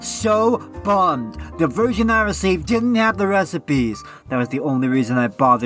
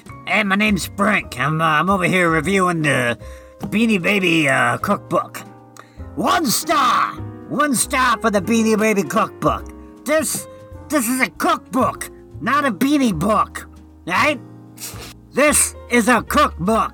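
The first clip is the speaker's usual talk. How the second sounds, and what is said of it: Put-on character voice. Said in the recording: “I have to do your character voice.”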